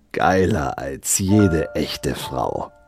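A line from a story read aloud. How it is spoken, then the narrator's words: Hissing. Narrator (German): zischte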